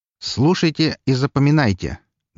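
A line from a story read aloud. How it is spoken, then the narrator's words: Loud, sharp. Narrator (Russian): громко и резко сказал я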